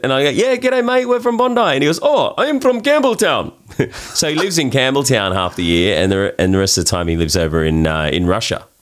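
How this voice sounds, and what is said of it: Australian accent. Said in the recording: “hey, you Australian, I hear the accent.”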